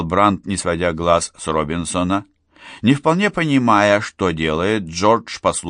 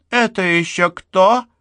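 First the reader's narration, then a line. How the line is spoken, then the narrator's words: Shrill question. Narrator (Russian): визгливо осведомилась она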